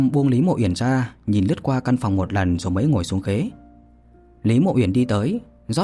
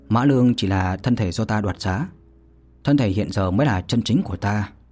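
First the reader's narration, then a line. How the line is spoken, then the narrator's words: Casual smiling speech. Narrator (Vietnamese): Vô Lâm mỉm cười hời hợt nói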